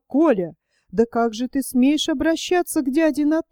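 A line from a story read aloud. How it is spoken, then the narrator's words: Horrified, flushed exclamation. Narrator (Russian): Ольга вспыхнула, в ужасе воскликнула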